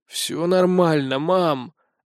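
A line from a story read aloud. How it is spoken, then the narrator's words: Creaky voice. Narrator (Russian): отвечаю скрипучим голосом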